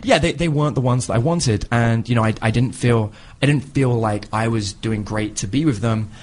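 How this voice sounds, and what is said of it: British English accent. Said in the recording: “he has a British accent ... He was an English.”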